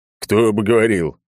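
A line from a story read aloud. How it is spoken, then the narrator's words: Snorting clown. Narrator (Russian): хмыкнул рядом клоун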